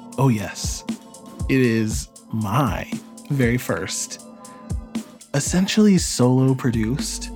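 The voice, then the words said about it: Public radio announcer voice. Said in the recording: “This guy got his NPR voice on.”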